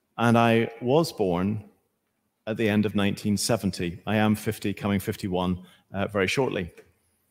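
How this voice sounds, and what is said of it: Northern Irish accent. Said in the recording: “with my accent, I don't come from these parts ... I do come from the very north of Ireland”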